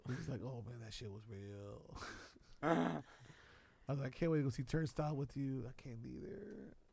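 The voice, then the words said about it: Imitates another person's voice. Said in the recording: “my Wiley impersonation ... It's good. ... Nailed it.”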